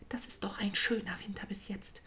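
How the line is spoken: Whisper. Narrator (German): flüsterte Trüffli Trillo zu

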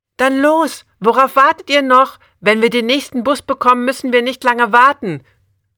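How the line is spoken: Called out while running. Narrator (German): ruft sie, während sie losrennt

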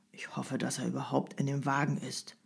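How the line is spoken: Bystander muttering. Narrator (German): murmelte einer der Wartenden

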